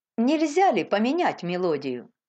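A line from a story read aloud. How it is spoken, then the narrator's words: Plain. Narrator (Russian): сказала она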